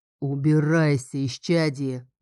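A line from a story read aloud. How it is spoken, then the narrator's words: Booming drone. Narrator (Russian): прогудел он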